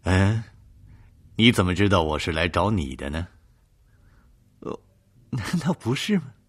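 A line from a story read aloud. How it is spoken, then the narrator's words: Faint smile. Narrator (Chinese): 叶宵 微微一笑 说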